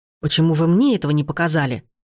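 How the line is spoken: Growled. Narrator (Russian): зарычал он

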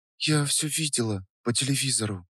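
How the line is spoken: Quiet. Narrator (Russian): тихо сказала Даша

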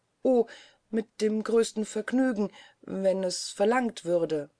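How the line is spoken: Stammering. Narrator (German): stammelte sie

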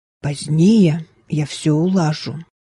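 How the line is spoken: Whisper. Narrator (Russian): прошептала она Мэри

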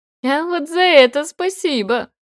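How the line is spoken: Laughing. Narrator (Russian): рассмеялся Денис

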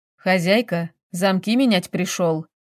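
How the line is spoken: Plain. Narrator (Russian): говорит пришедший

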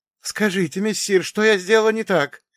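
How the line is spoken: Almost pleading. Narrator (Russian): чуть не взмолилась ведьма

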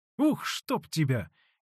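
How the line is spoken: Near outcry. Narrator (Russian): чуть не вскрикнула Устинья

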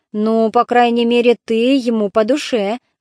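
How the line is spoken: Sigh. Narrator (Russian): вздохнул Антифон

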